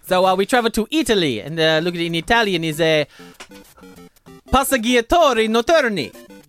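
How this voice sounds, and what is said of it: Decent but imperfect Italian accent. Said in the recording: “that accent wasn't... I mean, it was good, but it wasn't great... It wasn't Italian enough.”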